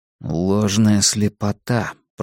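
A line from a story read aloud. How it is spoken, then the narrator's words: Mutter. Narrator (Russian): пробормотал я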